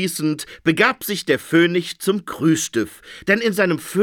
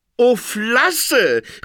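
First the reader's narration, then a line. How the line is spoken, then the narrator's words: Phoenix calling out. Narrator (German): rief der Phönix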